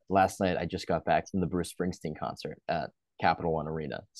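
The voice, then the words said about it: Slightly raspy voice. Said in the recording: “if my voice is a little bit raspy.”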